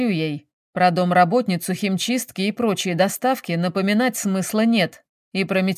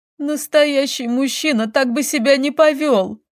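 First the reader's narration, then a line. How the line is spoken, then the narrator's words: Sobbing declaration. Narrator (Russian): заявила Лиза, всхлипнув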